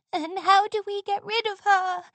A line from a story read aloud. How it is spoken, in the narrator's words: Sweetie Belle wailed